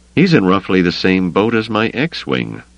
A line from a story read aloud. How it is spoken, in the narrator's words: Luke said dryly